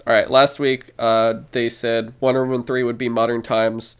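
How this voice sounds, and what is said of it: Speaks very fast. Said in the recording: “I'll say it really fast.”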